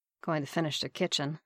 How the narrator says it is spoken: Barnes muttered

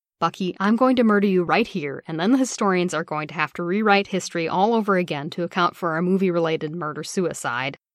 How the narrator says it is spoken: Steve said

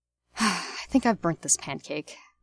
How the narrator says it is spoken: Remus says with a sigh

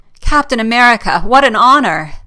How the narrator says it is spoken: exclaims

